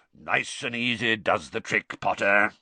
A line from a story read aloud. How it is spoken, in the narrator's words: growled